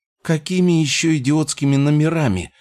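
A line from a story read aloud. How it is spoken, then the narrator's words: Shrill, trembling with fear, indignation. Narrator (Russian): взвизгнула эльфийка, и ее голос дрожал от смеси страха и негодования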